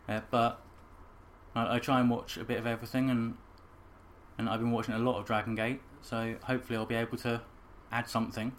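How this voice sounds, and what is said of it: English accent. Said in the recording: “I'm from England. ... we gotta let everybody know where these accents are from”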